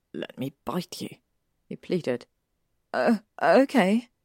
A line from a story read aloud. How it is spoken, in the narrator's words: she stammered